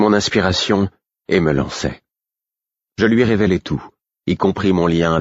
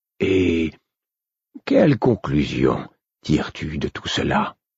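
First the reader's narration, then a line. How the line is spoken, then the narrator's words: Murmuring. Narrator (French): murmura-t-il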